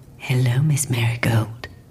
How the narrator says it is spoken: Faraday said in a smooth, smoky voice

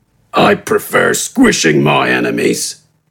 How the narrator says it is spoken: responded gruffly

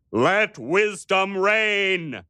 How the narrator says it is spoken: thundered at them

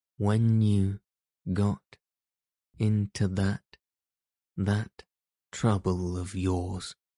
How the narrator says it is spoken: said the rat, slowly and impressively

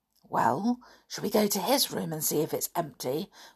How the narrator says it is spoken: whispered Sooty

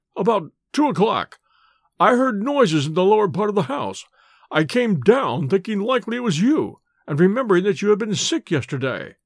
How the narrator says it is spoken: he faltered

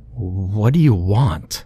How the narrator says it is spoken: I stuttered back

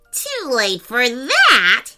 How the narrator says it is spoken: cackled an evil voice

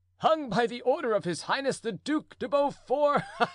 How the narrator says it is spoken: cried the prisoner, laughing violently

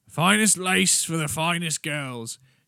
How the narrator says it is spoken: she boomed at them across the bar

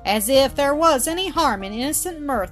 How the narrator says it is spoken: exclaimed Mildred

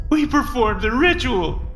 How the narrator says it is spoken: he sobbed

